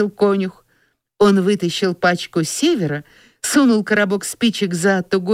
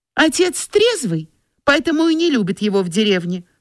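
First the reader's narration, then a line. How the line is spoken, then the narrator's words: Girl's exclamation. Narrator (Russian): воскликнула девочка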